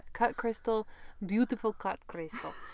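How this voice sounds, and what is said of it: Poor attempt at Polish accent. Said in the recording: “That's not Polish accent. I'm very sorry.”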